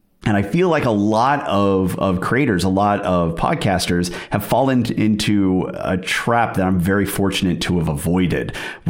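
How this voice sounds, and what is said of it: American accent. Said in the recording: “I'm a guy with an American accent”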